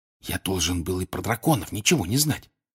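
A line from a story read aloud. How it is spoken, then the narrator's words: Secretive whisper. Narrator (Russian): шепнул ей Гарри так, чтобы никто не услышал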